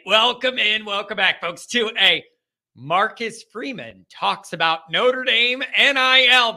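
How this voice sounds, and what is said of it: Strained, worn-out voice. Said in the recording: “my voice is still struggling from the event Sunday. I'm not used to like 12 hours of talking in a row”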